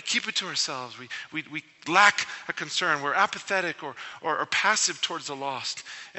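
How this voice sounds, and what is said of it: Noticeable non-local accent. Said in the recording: “why the funny accent?”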